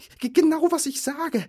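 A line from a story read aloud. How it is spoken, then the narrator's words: Panting reply. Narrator (German): entgegnete Bilbo keuchend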